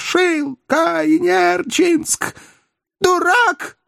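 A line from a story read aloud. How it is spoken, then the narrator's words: Hurried shout. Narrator (Russian): успела выкрикнуть девица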